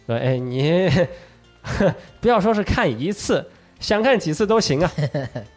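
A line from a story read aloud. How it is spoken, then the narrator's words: Smiling. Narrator (Chinese): 永次郎这时候是微微一笑，就说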